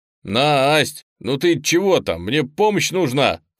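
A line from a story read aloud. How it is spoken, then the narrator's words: Shouted. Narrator (Russian): крикнул Леня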